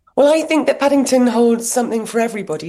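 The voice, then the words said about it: Husky voice. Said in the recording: “my voice is a little bit husky”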